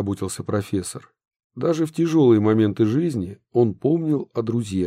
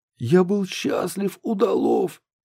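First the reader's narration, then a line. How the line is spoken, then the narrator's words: Hoarse voice. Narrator (Russian): произнес хриплый Минц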